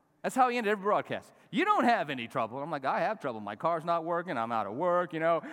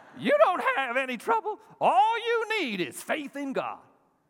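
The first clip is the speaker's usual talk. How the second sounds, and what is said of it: Imitates a radio preacher's voice. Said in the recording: “bad impersonation”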